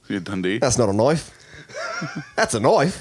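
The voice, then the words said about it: Put-on Australian accent. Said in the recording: “my Australian accent”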